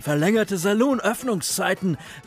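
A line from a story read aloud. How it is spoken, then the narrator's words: Called out. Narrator (German): rief Willie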